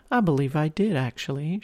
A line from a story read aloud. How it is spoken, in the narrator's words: she giggled